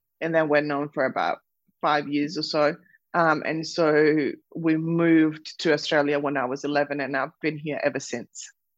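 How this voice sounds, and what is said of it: Slight foreign accent. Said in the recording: “I can detect a tiny accent.”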